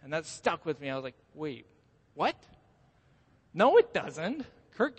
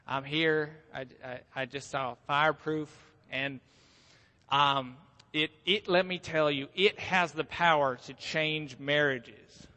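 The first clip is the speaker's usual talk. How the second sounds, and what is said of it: Heavy Southern American accent. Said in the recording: “she had a heavy southern accent”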